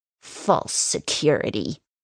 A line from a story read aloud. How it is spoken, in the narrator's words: she sneers